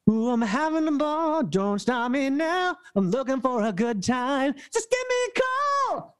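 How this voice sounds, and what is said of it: High-energy full-voice singing. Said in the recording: “It has to be very high energy ... I'm doing a full voice for them”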